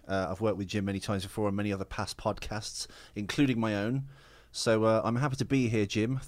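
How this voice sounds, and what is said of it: British accent. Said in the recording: “My crazy accent, yes, I am from the UK.”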